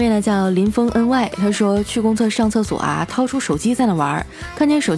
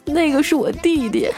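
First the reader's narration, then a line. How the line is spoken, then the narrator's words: Crying. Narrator (Chinese): 那男人哭了说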